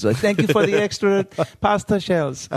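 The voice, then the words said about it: Bad put-on Italian accent. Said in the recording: “That's the worst. Italian accent ever.”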